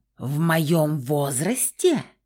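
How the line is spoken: Menacing growl, woman. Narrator (Russian): грозно прорычала блондинка

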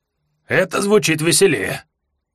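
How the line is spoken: Sudden hoarse interjection. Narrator (Russian): вдруг хрипло вставил Асгадан

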